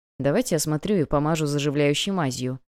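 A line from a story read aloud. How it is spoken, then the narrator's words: Muttered. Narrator (Russian): пробормотал Томас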